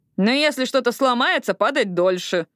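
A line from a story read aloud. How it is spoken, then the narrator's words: Grumbled. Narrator (Russian): проворчала Эшли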